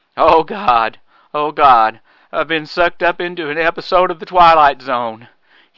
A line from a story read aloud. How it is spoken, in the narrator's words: moaned